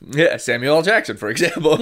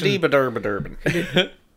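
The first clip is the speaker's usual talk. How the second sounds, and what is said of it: Mock Irish accent gibberish. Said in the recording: “That was my Irish accent. ... That sounded Scandinavian.”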